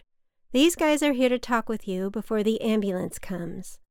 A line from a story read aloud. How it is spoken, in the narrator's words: said loudly, as if she were suddenly hearing impaired